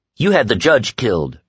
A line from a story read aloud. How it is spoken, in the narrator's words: she said harshly